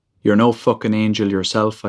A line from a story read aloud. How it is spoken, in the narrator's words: I said